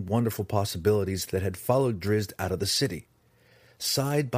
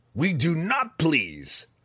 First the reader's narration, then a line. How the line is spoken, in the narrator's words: Breeza snapped, more at her sisters than at Zach